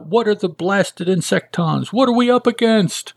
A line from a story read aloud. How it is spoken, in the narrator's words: getting some gumption, yells out